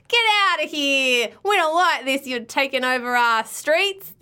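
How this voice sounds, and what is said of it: Attempted New York accent, sounds Australian. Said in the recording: “That's supposed to be a New York accent. ... have you been putting on an Australian accent all this time?”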